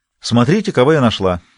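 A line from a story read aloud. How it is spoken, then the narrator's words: Cheerful. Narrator (Russian): весело сказала Джулия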